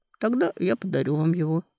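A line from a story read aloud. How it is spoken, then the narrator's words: Calm. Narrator (Russian): спокойно сказал Дан Реган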